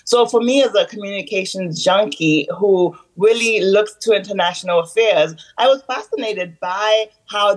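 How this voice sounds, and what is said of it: Haitian American accent. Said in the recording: “I'm Haitian American. I'm sure, you know, listeners are hearing the accent.”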